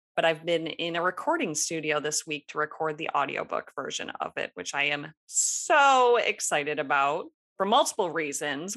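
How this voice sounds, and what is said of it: Slightly raspy voice. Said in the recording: “my voice is a little raspy now or may crack along the way”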